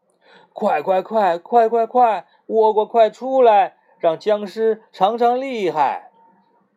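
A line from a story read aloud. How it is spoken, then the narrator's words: Hurried call. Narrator (Chinese): 向日葵赶忙叫倭瓜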